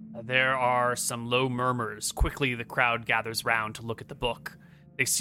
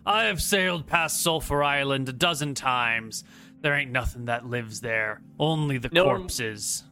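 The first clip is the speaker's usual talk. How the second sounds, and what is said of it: Character voice with foreign accent. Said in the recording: “Another person with an accent not from this island who speaks up.”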